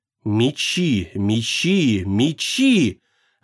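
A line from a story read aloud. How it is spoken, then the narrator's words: Strange whisper in mind. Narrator (Russian): ожил на миг в сознании чужой шепот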